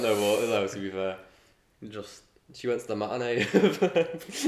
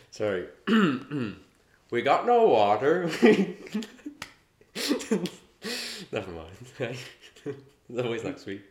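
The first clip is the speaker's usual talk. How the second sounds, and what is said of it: Impression of Precious. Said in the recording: “Do you want to do an impression of Precious? ... It was quite good.”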